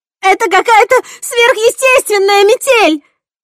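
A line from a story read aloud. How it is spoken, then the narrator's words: Wailing scream. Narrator (Russian): завопила Кэсси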